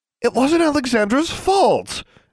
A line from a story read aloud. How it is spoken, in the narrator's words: Anna blurted out